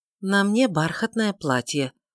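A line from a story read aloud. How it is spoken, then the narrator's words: Tired but patient. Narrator (Russian): усталым, но терпеливым тоном ответила Тельма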